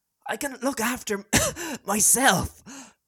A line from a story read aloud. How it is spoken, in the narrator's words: Fred wheezed